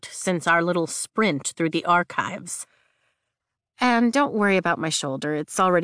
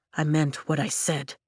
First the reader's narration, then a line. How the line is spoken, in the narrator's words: Nolan says quietly